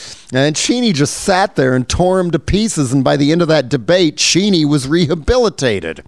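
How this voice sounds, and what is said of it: Usual voice. Nothing is said of it.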